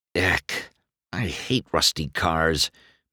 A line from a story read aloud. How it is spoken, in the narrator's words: McQueen muttered under his breath